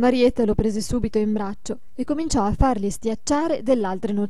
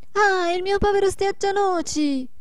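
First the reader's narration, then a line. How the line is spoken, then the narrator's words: Shouting. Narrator (Italian): gridò la Marietta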